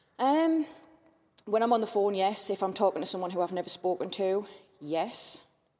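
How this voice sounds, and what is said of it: Strong Mackem (Sunderland) accent. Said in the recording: “I'm obviously a very strong Macam ... my normal twang”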